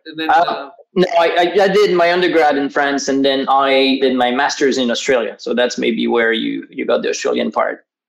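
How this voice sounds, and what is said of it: Slight French and Australian accent. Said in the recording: “a hint of French and a hint of Australian English”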